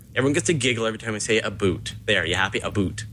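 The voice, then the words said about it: Canadian accent, saying "a boot". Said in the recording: “That's my Canadian accent for you. About how I really say it”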